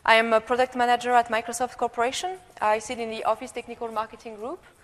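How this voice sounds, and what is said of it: Slight French accent. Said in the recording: “You might have noticed my slight accent. ... This is a French European accent”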